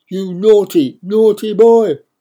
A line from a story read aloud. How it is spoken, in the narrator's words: thunders